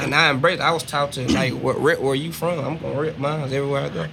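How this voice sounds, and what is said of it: Southern Texas accent. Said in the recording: “you got that same tone. You got that same Texas, like, sound ... having that Southern accent”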